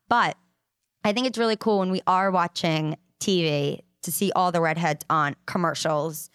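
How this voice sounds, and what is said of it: Rhode Island accent. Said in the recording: “is my Rhode Island accent coming out. So if I say that or add R's where A's should be or vice versa”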